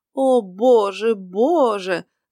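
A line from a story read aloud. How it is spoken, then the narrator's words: Priest's groan, feigned despair. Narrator (Russian): застонал священник с показным отчаянием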